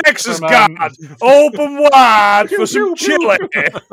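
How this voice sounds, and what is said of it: Put-on Texan accent. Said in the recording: “that was a better accent than what most of these people were capable of doing.”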